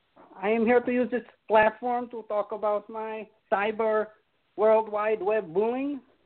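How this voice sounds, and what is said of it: Melania impression, Slavic accent slipping Indian. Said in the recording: “Melania? ... How is your accent going from Slovakian to Indian? Like a back and forth between the two. ... How is it going from Slavic to Indian?”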